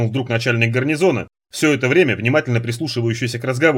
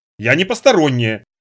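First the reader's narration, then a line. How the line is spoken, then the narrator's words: Irritated. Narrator (Russian): вновь раздраженно притопнула Надя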